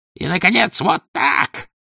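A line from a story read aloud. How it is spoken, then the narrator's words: Shout. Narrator (Russian): крикнул Филипп Борисович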